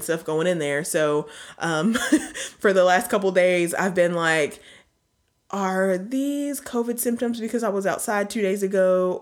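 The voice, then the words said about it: Congested, stuffy voice. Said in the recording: “you can hear it in my voice a little bit. I'm a little congested.”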